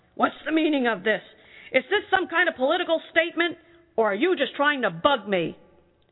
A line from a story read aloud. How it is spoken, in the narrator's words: Gregor's dad was really mad and yelled